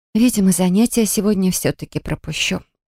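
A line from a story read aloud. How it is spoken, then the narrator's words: Sigh. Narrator (Russian): Вздохнула я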